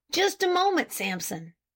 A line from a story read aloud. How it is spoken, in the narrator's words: suddenly exclaimed Farnsworth